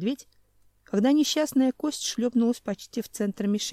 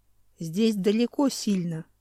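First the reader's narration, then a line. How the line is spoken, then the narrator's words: Calm answer. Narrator (Russian): спокойно ответил Хью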